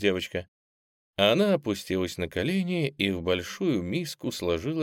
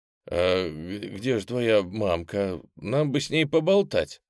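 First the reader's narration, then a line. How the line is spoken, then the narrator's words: Plain. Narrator (Russian): спросил Алекса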